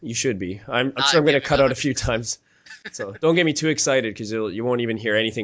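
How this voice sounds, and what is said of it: Shaky voice from a cold. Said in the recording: “I've got a bit of a cold hack in here... Just my voice is a little shaky right now”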